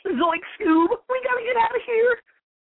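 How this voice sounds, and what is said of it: Shaggy impression. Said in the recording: “a little Shaggy ... I dabble in a little comic book impersonation”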